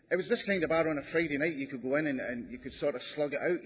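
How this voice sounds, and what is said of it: Strong accent, hard to understand. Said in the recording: “this accent, people keep saying to me, oh, I can't understand you ... oh, I love your accent”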